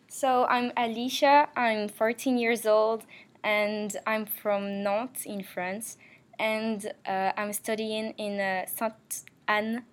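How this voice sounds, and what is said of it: French speaker with American-influenced accent. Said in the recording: “you have a fantastic accent as well ... That's because I lived 2 years in the USA.”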